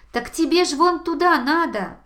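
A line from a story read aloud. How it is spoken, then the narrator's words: Two animals shouting together. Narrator (Russian): одновременно закричали заяц и ежик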